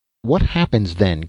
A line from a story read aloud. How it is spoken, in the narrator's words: queried Dan desperately